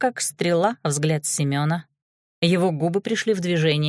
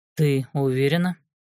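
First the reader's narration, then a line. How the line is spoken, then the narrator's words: Deep bass voice. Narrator (Russian): Жужа пробасила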